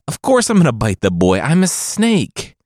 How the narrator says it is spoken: the father pleaded

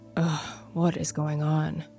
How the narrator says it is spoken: I said under my breath

